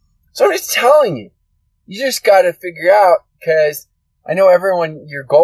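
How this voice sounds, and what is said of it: Usual voice. Nothing is said of it.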